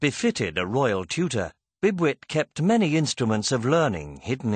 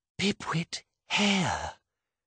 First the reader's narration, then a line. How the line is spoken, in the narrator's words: she whispered